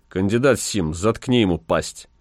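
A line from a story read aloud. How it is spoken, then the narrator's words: Even, flat voice. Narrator (Russian): Ротмистр Чачу сказал ровным голосом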